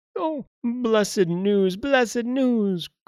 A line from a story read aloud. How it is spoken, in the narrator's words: cried Passerose